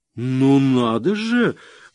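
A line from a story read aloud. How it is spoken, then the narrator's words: Exclaiming while laughing. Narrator (Russian): воскликнула она, все еще смеясь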